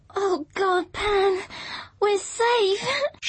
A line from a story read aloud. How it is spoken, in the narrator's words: she sobbed